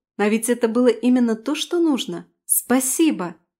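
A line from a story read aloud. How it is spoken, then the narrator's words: Pleased exclamation. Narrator (Russian): воскликнула я с довольным видом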